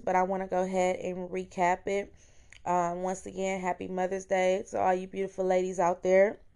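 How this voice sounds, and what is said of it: Hoarse voice. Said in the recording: “my voice is a little hoarse because I've been singing my heart out ... So my voice is a little hoarse”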